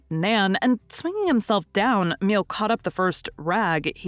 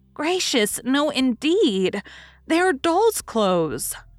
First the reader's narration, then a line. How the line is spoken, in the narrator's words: cried Daisy indignantly